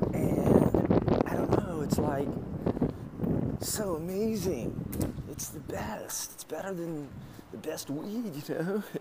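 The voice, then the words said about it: Exaggerated Southern California accent. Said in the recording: “the perfect Southern California accent ... I'm overdoing it. But what I just did is an extremely exaggerated version of what she does”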